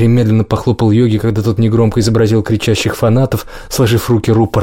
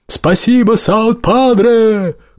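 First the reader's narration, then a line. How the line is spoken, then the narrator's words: Shouted. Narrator (Russian): прокричал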